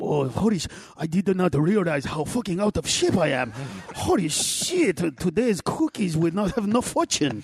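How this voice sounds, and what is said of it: Impression of Buddha. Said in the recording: “I'm gonna do an impression of him ... Buddha's overweight”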